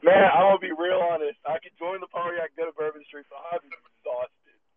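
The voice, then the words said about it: Hoarse, worn-out voice. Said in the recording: “I don't know if you could hear me. My voice is shot.”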